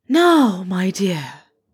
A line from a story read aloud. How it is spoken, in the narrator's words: she said, in her most ethereal tones